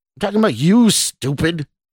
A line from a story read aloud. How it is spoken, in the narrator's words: the stranger snarled